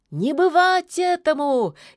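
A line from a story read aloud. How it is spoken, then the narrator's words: Exhausted shout, witch. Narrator (Russian): из последних сил крикнула ведьма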